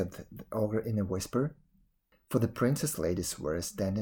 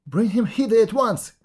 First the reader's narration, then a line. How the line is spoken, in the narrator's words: cried